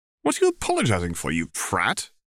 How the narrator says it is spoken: Harry snorted

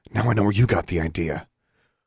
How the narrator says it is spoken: whispered

